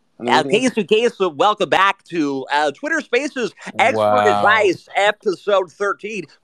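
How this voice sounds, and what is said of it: Imitates another person's voice. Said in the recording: “Can we have Casey Kasem? ... Wow. That's fucking good.”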